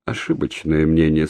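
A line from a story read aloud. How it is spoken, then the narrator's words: Dry remark. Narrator (Russian): сухо заметил Егор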